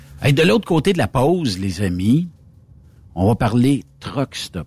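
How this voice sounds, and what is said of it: Québécois French accent. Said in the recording (French): “quand on entend les Québécois ... vous avez un accent qui, qui, est plaisant à, euh, à, à entendre”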